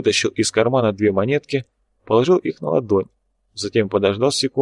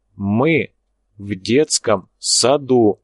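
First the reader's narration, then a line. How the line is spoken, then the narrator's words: Clipped, emphatic. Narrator (Russian): отчеканил брат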